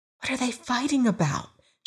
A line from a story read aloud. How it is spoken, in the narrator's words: she whispered